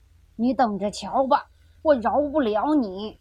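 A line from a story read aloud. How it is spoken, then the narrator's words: Old man shouting. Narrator (Chinese): 老爷爷喊着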